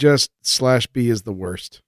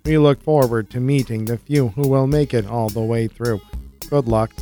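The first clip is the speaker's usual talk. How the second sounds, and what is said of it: Robotic voice. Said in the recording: “That's my robot voice. ... That's pretty good.”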